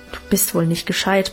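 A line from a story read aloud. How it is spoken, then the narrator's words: Grumbling. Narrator (German): brummte Alwine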